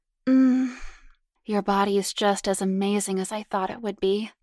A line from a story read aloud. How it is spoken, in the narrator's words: Karen cooed hotly